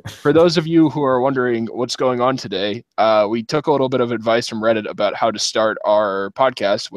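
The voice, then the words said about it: Hoarse, worn-out voice. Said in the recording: “my voice is pretty much gone from watching the Blues beat the Hawks”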